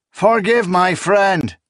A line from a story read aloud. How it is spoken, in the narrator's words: Sabon shouted, laughing